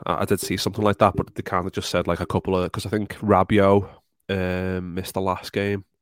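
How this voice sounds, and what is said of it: Failing, worn-out voice. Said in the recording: “as you can tell by my voice. It started off really good, and the more I've been speaking, my voice is just absolutely going to shit.”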